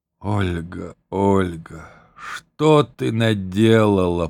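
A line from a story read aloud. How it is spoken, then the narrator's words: Groaned. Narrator (Russian): простонал он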